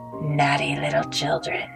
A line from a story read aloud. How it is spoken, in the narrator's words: say in a cold, raspy voice